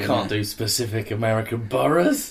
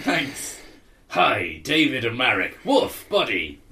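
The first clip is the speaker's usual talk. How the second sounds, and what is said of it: Pirate character voice. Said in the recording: “I'll do Anne Coletta as a pirate. ... Do a pirate.”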